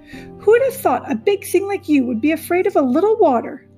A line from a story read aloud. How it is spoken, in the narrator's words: Loudwing laughed